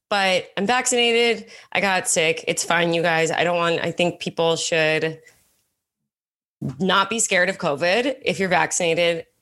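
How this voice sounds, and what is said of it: Sick-sounding voice. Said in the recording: “I got sick. You can hear it in my voice. ... my voice sounds cool right now”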